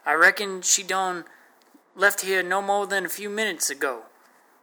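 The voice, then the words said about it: Put-on Texas accent. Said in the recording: “I answered with my new Texas accent.”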